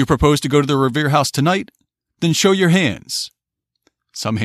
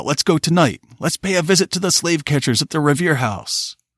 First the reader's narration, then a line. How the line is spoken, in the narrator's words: many voices cried out